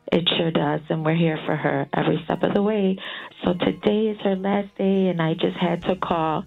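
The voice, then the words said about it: Faint, near-whispered voice. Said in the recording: “whispering voice ... It still sounds like you kind of are. ... Little faint.”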